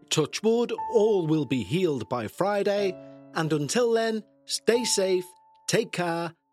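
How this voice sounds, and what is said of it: Congested, sick-sounding voice. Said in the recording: “As you can tell, by my voice, or probably can tell by my voice, I'm still fighting this flu slash cold ... speak to you all with a clearer voice”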